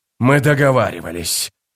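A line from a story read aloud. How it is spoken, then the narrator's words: Hoarse rasp. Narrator (Russian): прохрипел он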